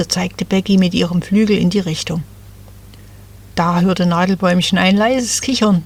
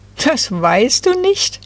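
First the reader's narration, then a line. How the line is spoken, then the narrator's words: Giggling. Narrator (German): kicherten da die drei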